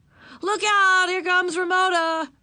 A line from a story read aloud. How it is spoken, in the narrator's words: Davy yelled